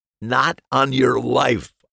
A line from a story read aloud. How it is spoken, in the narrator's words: I said with a laugh